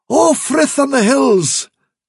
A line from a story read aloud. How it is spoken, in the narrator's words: cried Dandelion